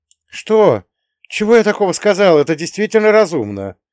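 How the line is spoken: Shouted after someone. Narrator (Russian): крикнула родительница мне вслед

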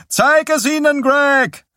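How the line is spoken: Called out. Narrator (German): rief

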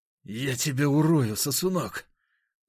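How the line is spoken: Spiteful, through teeth. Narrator (Russian): злобно процедил он

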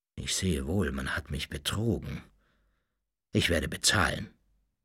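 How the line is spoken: Pained murmur. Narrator (German): Mit schmerzlicher Miene murmelte er

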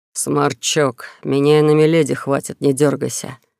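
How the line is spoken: Sergeant's condescending growl. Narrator (Russian): снисходительно рыкнул старшина

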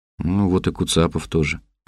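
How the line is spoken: Mumble. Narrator (Russian): пробормотал я

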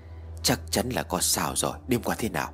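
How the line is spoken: Dazed whisper. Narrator (Vietnamese): Anh Tuấn thì thầm, mặt vẫn ngây ra

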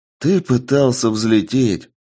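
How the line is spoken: Sighing. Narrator (Russian): вздохнул Денис

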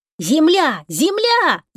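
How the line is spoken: Sudden yell. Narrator (Russian): завопил вдруг Тишка

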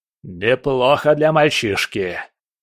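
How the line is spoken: General growling. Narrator (Russian): прорычал генерал

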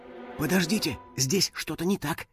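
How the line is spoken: Whisper. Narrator (Russian): шепнула друзьям Кристина

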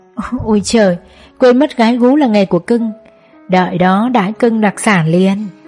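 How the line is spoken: Bursting laughter. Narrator (Vietnamese): gã cười phá lên nói

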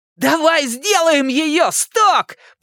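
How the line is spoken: Shout. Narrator (Russian): прокричал Ричи

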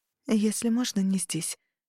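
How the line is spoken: Whispered. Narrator (Russian): опустив глаза, шепнула Тарухана

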